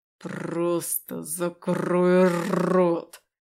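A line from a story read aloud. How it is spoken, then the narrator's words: Growled. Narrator (Russian): прорычал я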